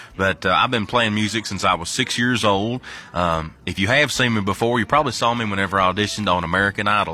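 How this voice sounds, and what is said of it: Strong Kentucky Southern accent. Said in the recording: “I've got quite the strong accent, and that's because I'm from the great state of Kentucky”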